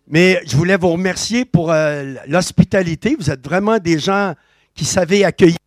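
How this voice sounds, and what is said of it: Québécois French accent. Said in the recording (French): “Ajustez pas vos appareils, ce n'est pas un accent neuchâtelois ... je viens du Québec”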